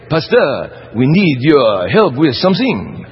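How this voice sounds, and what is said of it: Put-on French accent. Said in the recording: “Beautiful French accent.”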